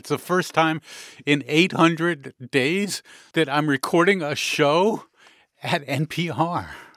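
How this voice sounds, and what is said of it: Excited, energetic delivery. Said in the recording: “I sound excited, it's because I am”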